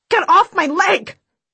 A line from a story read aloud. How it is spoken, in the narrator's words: I scream